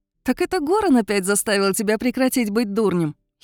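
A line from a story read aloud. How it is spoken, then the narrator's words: Giggle. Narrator (Russian): хихикнула Мария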